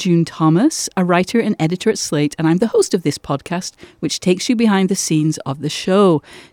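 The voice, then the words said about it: Manchester English accent. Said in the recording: “where is that beautiful accent from ... Manchester ... Mine's Manchester with 30 years of America”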